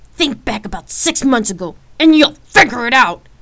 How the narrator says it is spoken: Rain shouted

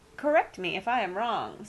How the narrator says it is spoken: said Uncle Parker

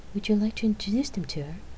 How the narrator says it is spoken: She asked kindly

